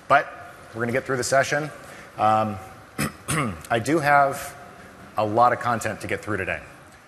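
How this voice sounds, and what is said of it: Slightly hoarse voice. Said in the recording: “My voice, a little bit hoarse today. ... I'm getting over a little bit of a cold”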